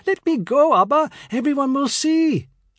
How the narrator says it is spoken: I turned scarlet and squealed

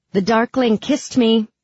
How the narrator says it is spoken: shout

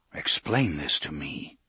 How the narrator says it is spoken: Roland said in his softest voice

